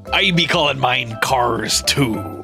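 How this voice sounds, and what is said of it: Put-on pirate accent. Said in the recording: “With a pirate accent”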